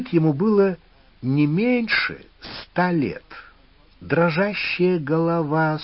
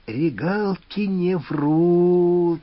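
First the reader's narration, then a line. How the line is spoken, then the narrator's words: Quavering rattling voice. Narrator (Russian): дребезжащим голосом произнес Каляша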